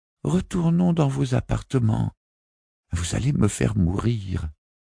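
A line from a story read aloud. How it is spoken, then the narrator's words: Moaning lady companion. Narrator (French): gémissait la dame de compagnie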